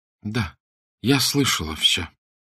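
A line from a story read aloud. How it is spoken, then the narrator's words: Weak confessing voice. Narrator (Russian): призналась Арабелла слабым голосом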